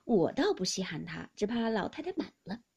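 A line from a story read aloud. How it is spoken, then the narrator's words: Laughing. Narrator (Chinese): 薛姨妈 便笑道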